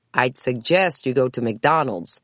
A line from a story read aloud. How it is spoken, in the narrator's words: the old man answered with a dry chuckle